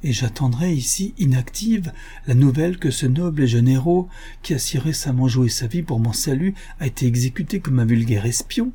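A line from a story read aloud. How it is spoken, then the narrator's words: Impassioned cry. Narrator (French): s'écria Louisa dans l'emportement de son émotion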